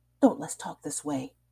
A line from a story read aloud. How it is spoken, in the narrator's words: he whispered